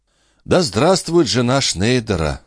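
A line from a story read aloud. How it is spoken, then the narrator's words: Sigh. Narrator (Russian): вздохнул Моне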